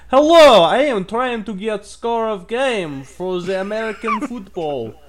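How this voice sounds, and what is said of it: Mock Russian-style foreign accent. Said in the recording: “You seem like a nice Russian guy ... I think I went like French and some kind of Baltic ... German, French, Russian.”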